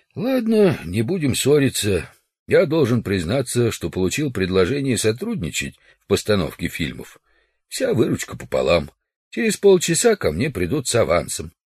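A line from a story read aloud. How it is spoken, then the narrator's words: Feigned sigh. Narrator (Russian): Удалов притворно вздохнул и сказал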